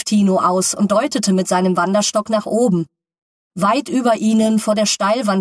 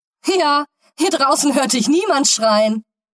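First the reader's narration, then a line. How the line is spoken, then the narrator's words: Laughing interruption. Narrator (German): unterbrach Stefan ihn lachend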